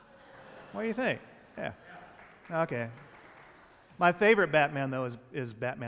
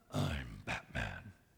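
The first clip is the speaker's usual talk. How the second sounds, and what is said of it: Imitates Batman's voice. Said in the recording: “my Batman imitation”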